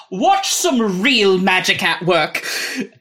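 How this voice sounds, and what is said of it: Fake British accent, wise-sounding. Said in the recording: “I keep switching which British accent ... He's faking all of them ... He's just attempting to be very wise and educated and sounding”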